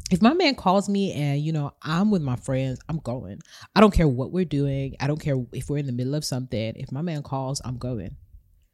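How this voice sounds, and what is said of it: Put-on American accent. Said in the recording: “she's American as well, so that's why the accent.”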